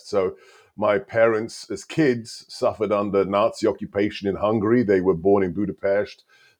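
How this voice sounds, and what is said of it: Immigrant's funny accent. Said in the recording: “an immigrant, a legal immigrant with a funny accent”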